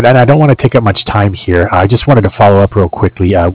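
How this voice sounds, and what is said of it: Hoarse, strained voice. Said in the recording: “Excuse me, I'm losing my voice here.”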